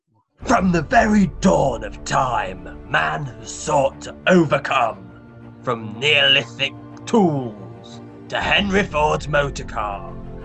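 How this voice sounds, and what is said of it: Deep movie-trailer narrator voice. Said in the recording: “I need to do my sort of deep voice”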